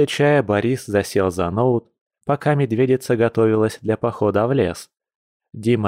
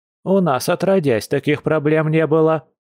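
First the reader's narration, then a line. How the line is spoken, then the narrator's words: Old woman barking. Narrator (Russian): рявкнула бабулька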